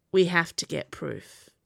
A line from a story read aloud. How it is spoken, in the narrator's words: he said in a low voice